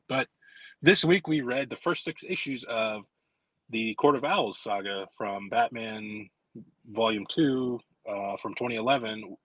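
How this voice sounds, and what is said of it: Slightly sick-sounding voice. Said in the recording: “I'm a little bit under the weather. So that's what you hear in my voice, maybe.”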